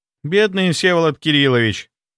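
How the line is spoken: Sigh without real sadness. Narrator (Russian): Вздохнула она, но особой печали в голосе не было

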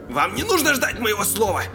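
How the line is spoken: Indignant barking. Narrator (Russian): рявкнул врач, негодуя

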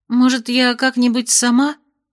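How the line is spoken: Unsure mumble. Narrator (Russian): неуверенно промямлила она

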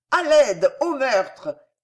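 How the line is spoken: Innkeeper shouting for help. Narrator (French): cria l'aubergiste en voyant arriver du renfort

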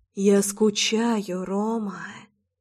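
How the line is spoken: Quiet. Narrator (Russian): тихо произнесла Рушинская

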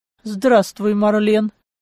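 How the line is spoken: Somewhat dry reply. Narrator (Russian): Несколько сухо ответил Клаус

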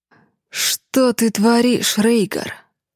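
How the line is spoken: Through gritted teeth. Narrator (Russian): Процедил Алиф

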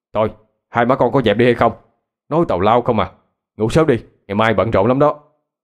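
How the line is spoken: Grandmother shouting. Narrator (Vietnamese): Bà tôi la lên

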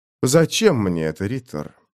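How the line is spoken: Cold question. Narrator (Russian): холодно спросил Томас

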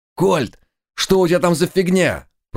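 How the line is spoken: Unfamiliar voice shouting. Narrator (Russian): прокричал незнакомый голос

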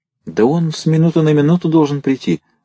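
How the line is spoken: Timid guilty voice. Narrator (Russian): сказал виноватым голосом лейтенант оробев

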